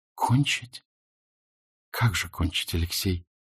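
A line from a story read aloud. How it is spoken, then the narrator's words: Quiet. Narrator (Russian): сказала она тихо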